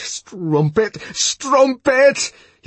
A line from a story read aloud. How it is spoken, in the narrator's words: he shouted at every blow